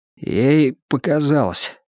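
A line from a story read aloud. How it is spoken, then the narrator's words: Suddenly hoarse voice. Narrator (Russian): сказал я неожиданно охрипшим голосом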